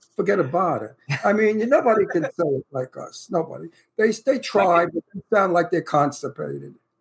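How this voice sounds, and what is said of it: Thick Brooklyn accent. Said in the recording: “my Brooklyn accent ... my accent is thick talking to you”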